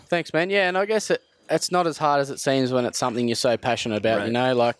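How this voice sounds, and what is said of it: Australian accent. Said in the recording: “the accent of an Australian god”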